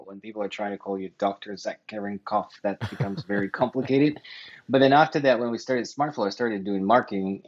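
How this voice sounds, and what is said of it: Noticeable foreign accent. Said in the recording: “as you will see very clearly or hear very clearly, he has an accent”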